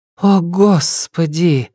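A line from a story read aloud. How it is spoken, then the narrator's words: Breathless woman. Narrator (Russian): выдохнула Нелидова у его плеча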